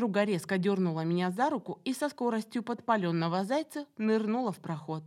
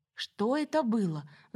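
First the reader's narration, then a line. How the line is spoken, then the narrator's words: Breathless exhale. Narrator (Russian): запыхавшись, выдохнула Самаре в затылок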